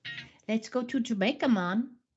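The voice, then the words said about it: Put-on Jamaican accent. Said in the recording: “Oh, you're doing the accent, huh?”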